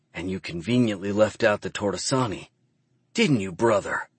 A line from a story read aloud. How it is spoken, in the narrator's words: Drummer hisses